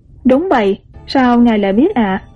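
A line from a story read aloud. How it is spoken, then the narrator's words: Smiling question. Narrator (Vietnamese): mỉm cười với trưởng quầy phúc hậu hỏi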